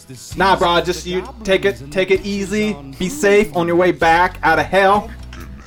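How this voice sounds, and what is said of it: Put-on Southern accent. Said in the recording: “I just got southern there for a little bit ... a southern accent”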